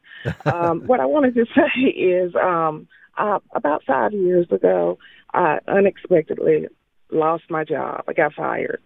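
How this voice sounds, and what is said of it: Congested, sinus-affected voice. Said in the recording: “excuse my voice. It's allergy sinus”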